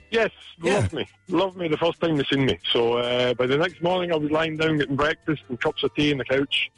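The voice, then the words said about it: Thick Scottish accent. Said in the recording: “me having that kind of thick Scottish accent”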